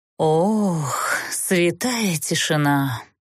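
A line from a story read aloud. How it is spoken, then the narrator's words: Sorrowful exhale. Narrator (Russian): горестно выдохнул Тмирна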